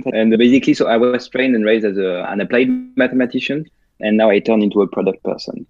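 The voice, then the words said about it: French accent. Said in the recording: “I live in France, as you can tell by my accent.”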